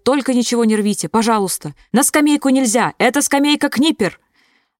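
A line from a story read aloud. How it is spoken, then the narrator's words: Shouted after them. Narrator (Russian): Экскурсовод кричал им вслед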